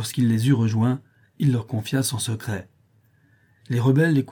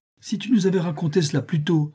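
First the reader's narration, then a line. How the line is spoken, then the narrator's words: Exclaiming. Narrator (French): s'écria Joey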